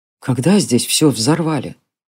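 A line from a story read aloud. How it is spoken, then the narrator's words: Quiet question. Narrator (Russian): тихо спросил Джари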